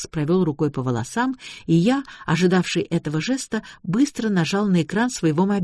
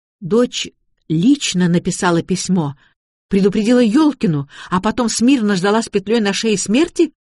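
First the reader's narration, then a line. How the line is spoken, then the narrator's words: Shouting. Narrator (Russian): закричала Вероника Григорьевна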